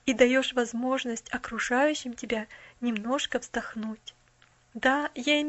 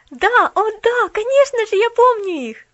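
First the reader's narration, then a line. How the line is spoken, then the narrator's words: Exclamation. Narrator (Russian): воскликнула Поллианна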